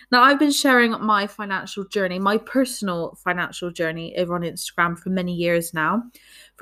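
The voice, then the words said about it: English accent from Bristol, UK. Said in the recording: “from Bristol in the UK, if you could not already tell by my atrocious accent.”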